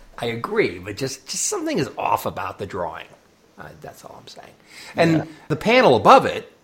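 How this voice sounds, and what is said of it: Usual voice. Nothing is said of it.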